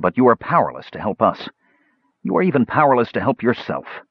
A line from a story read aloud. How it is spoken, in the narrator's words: Tanis said bitterly